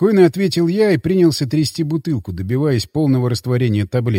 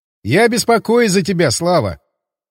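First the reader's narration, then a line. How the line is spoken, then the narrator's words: Snorting. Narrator (Russian): хмыкнул Николай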